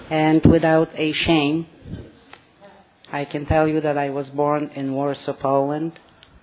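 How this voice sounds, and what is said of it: Foreign-accented English. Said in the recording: “If you detected my accent”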